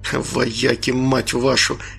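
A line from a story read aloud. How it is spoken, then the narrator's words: Whisper. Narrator (Russian): прошептал бывший капитан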